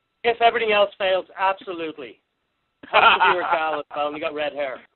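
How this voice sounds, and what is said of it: Irish accent. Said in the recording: “I'm detecting an accent... Ireland. I'm actually from Dublin, Ireland... pretend they're Irish and use your accent”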